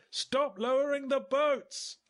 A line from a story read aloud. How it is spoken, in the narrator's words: I yelled over the cannon fire